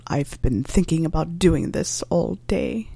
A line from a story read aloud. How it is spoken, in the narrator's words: he muttered